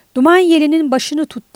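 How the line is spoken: Shouting. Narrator (Turkish): diye bağırarak

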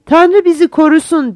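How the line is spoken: Group shouting. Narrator (Turkish): diye bağırdılar

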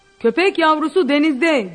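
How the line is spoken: Shouting. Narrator (Turkish): diye bağırdı Brookman'a

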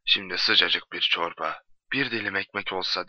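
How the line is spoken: Murmuring. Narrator (Turkish): diye mırıldandı

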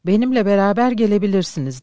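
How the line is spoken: Plain. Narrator (Turkish): dedi

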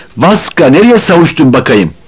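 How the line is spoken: Shouted. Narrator (Turkish): diye bağırdı

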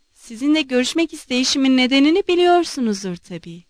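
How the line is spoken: Plain. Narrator (Turkish): dedi

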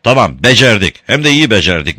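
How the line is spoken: Shouting. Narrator (Turkish): diye bağırdı

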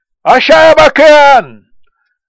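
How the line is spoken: Shouting. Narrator (Turkish): diye bağırdı Akka

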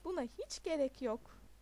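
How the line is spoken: Said laughing. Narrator (Turkish): diyerek güldü Neil

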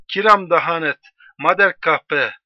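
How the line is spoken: Crying out. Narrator (Turkish): diye haykırmıştı

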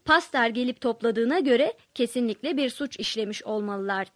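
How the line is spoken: Plain. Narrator (Turkish): dedi

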